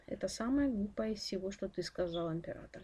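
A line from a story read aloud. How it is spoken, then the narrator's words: Calm smiling old man. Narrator (Russian): спокойно улыбнулся старик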